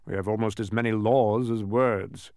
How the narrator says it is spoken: grumbled the King

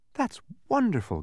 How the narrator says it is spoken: gasped Milo

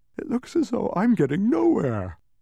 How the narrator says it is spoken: yawned Milo, becoming very drowsy and dull

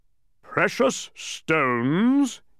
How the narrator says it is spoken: he roared, even louder than before

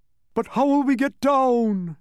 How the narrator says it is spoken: groaned the humbug

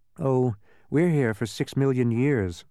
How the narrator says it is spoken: sighed Milo

